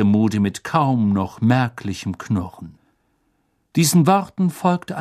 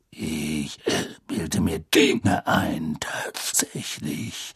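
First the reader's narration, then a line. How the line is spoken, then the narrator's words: Growled. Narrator (German): knurrte Moody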